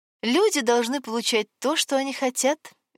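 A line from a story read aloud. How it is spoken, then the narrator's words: Cheerful announcement in silence. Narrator (Russian): весело объявила Вероника в звенящей тишине палаты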